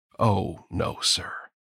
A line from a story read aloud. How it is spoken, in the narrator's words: said gravely